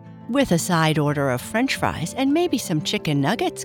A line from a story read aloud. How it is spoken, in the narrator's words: Carl laughed